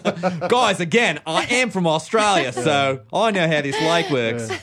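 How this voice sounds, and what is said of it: Put-on Australian accent, not good. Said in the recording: “You could do an Australian accent. ... But not a good one. ... It's a hard accent.”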